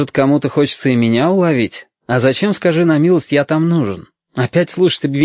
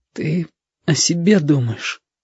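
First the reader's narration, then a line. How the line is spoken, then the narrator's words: Tearful. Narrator (Russian): Уже сквозь слезы сказал Витька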